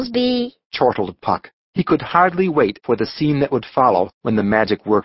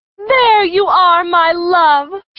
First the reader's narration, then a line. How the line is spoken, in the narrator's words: she cried